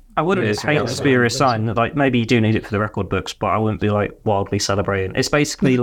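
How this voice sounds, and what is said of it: Usual voice. Nothing is said of it.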